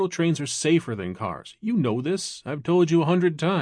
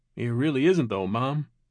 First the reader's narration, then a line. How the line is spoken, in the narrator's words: Peter sighed and then continued